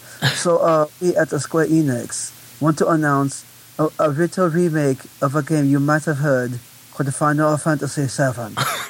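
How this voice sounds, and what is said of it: Fake American Japanese accent. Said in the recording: “my Japanese is horrible, so I'm just going to do fake American Japanese accent.”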